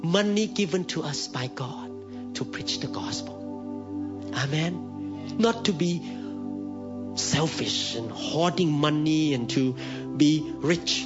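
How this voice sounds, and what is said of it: Thai accent. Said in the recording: “Mine is Thai accent.”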